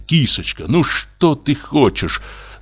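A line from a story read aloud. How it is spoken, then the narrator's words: Mumbling. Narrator (Russian): забормотал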